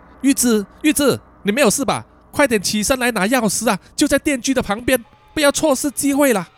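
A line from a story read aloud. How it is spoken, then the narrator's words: Loud urgent shout. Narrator (Chinese): 他也大声的向他的老婆喊话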